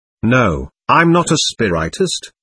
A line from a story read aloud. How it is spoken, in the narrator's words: said firmly